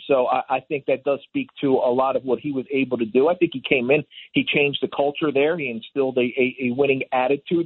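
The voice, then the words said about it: Slight Philadelphia accent. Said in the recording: “am I detecting some Philly in that accent a little bit?”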